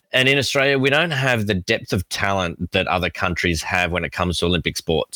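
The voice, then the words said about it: Australian accent. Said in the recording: “I'm sure you've all picked up my accent, I am Australian.”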